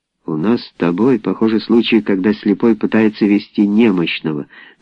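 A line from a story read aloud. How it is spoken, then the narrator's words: Plain. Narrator (Russian): наконец сказал он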